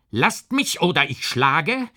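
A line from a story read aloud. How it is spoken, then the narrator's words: Called out. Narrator (German): rief K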